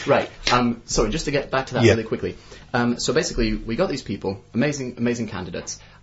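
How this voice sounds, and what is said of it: American English accent. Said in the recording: “It's American, isn't it? ... the American accent”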